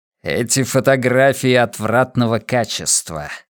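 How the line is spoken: Hiss, suppressed excitement. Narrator (Russian): зашипел, скрывая возбуждение

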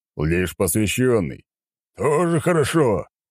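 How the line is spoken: Laughing. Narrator (Russian): продолжал он хохотать

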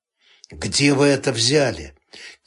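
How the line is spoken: Quiet mutter. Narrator (Russian): тихо пробормотал

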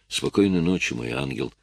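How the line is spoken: Tender whisper. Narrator (Russian): ласково прошептал он

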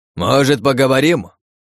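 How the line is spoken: Magically amplified shout. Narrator (Russian): крикнул мужчина с именем Танатос, и его голос, усиленный магией, разнёсся по всему полю боя

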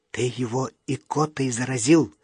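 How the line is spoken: Whisper. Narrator (Russian): шепнул я Юрке

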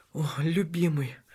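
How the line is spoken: Whisper. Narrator (Russian): шептала она

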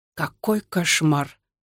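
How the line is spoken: Old man mumbling. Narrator (Russian): пробормотал дед

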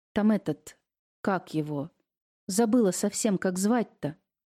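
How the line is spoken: Confused mumble. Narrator (Russian): растерянно пробормотала она

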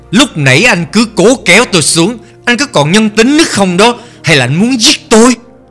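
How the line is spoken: Loud scolding. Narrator (Vietnamese): Tử Minh đã lớn tiếng mắng

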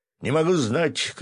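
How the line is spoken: Shouting. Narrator (Russian): крикнул артиллерист

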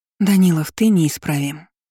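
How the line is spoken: Sighing. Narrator (Russian): вздохнула она

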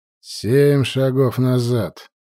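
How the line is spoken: Icy sorcerer's command. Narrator (Russian): ледяным голосом скомандовал колдун

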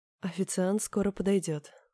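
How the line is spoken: Languid voice. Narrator (Russian): сказала томным голосом

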